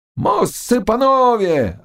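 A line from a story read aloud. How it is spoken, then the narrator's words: Deafening yell. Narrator (Russian): орал он так, что стекла в окнах дрожали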